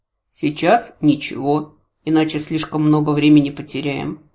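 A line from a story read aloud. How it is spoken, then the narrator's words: Snort. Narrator (Russian): хмыкнул храмовник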